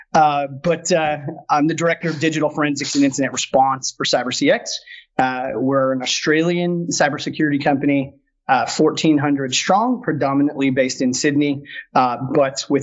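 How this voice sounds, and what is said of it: American accent, not British. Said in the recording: “I'm sure you all can tell from my accent. I am a bloody rebel, not from the UK.”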